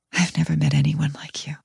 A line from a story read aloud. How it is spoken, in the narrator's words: With a hitch in my voice, I whisper